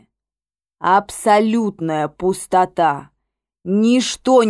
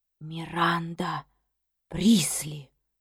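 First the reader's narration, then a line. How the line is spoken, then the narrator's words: Near-whisper, awed and fearful. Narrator (Russian): почти прошептала она, и в голосе ее слышались благоговение и страх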